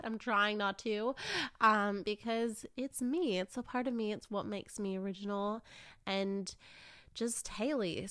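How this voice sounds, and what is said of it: Mixed Canadian-Australian accent. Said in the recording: “my accent really, like, it stuck with me. I'm Canadian to my core in that part ... she tried to be a bit more Aussie ... a very mishmash accent”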